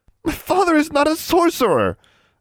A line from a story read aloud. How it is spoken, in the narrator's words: Anna cried